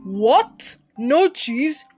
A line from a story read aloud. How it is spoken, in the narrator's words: Hem yelled